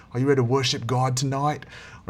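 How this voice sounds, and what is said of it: Put-on Australian accent. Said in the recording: “that Australian accent now is reminds me of Hillsong”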